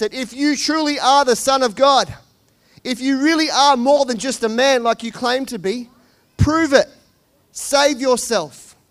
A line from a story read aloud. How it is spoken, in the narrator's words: people called out to him and said